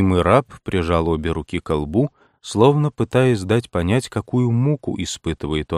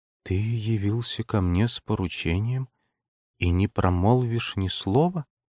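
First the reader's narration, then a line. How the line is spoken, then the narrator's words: Quiet. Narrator (Russian): Эдит ... тихо произнесла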